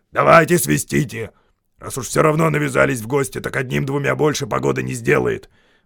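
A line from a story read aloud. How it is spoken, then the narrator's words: Grumbling. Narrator (Russian): проворчал Бьорн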